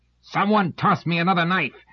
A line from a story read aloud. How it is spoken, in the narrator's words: Maron, aware of the blood on his chest and hand, roared out chokingly